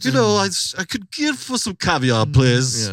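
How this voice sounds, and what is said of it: Posh Connecticut upper-class accent. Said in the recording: “they talked like those like, Connecticut, like ... I don't even know what fucking accent that is ... posh ... It's Rockefeller”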